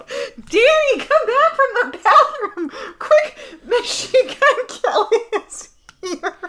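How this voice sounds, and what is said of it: Yelling. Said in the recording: “I don't know why you're yelling.”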